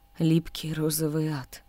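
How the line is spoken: Trembling repeat. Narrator (Russian): дрожащим голосом повторил Саджун

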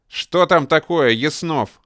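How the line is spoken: Barking. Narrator (Russian): рявкнул Деденец

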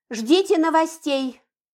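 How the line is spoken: Shouting through window. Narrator (Russian): крикнула я через открытое окно

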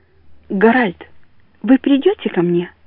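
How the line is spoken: Trembling question. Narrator (Russian): спрашивает она трепетным голосом

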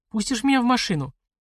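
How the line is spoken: Timid question. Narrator (Russian): робко спросила девушка

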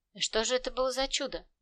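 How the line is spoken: Soft inquiring. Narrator (Russian): Мягко поинтересовался патрульный

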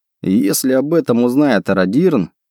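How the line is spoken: Laughing. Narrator (Russian): рассмеялся я

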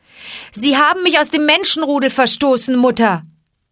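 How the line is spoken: Calling out. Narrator (German): rief Mowgli

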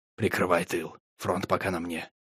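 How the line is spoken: Whispered. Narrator (Russian): Я шепотом сказал

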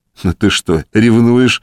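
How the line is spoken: Laughing. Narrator (Russian): засмеялся Саша

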